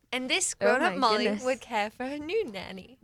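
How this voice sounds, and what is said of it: Convincing put-on accent. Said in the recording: “Your accent's impeccable, though”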